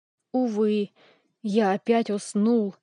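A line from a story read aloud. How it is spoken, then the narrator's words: Despairing exclamation. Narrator (Russian): воскликнул Фанш в отчаянии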